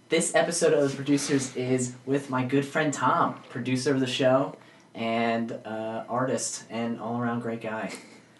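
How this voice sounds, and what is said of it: Voice sounds a little off. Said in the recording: “Excuse my voice, it sounds a little off. I was just at a concert last night.”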